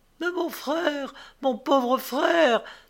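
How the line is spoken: Young woman crying out. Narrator (French): s'écria la jeune fille

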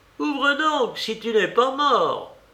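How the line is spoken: Servant shouting. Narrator (French): criait la servante

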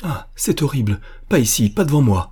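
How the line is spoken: Exclaimed. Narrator (French): s'écria Diane

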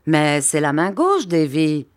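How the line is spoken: Laughing. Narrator (French): dit le monsieur en riant

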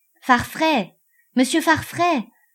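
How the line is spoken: Breathless shout. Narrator (French): cria d'une voix haletante Henchard

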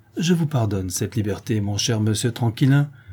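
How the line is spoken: Cheerful. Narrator (French): répond gaiement Antonine

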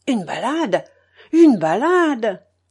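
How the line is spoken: Hermit's exclamation. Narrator (French): s'écria l'ermite

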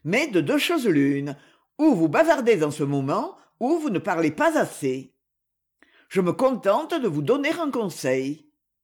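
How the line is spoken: Irritated reply. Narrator (French): répondit Abercrombie Smith d'un ton agacé

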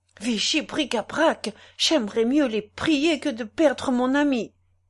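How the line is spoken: Exclaiming. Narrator (French): s'écria-t-il

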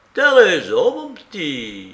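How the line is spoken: Exclaiming. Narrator (French): s'écria mademoiselle Zoé, figurante au théâtre Beaumarchais

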